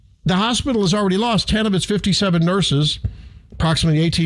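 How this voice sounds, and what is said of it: Usual voice. Nothing is said of it.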